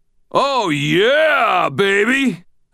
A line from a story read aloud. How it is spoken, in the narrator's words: I heard myself howl, elated